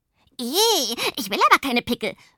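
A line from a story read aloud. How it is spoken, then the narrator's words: Horrified scream. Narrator (German): schreit Pumpernickel und lässt entsetzt die beiden Igel fallen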